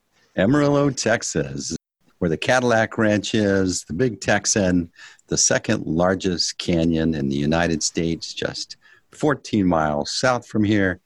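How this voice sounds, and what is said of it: American accent. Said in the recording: “astute listeners will have picked up an American accent there. And not only do you have an American accent,”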